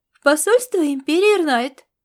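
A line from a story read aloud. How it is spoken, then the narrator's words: Self-important command. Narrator (Russian): с важностью распорядилась она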